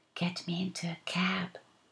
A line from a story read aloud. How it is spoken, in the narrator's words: I hissed